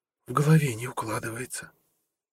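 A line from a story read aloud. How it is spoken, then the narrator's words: Whisper. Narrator (Russian): прошептала Амела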